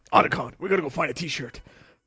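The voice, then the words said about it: Gruff character impression. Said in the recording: “See? See? Oh. That's my impression.”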